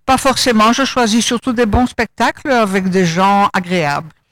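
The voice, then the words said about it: Slight Belgian French accent. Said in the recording (French): “votre petit accent belge”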